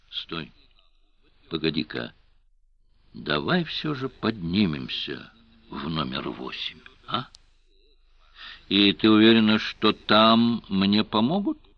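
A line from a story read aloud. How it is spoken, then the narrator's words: Ingratiating question after pause. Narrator (Russian): Помолчав вкрадчиво, спросил Сварог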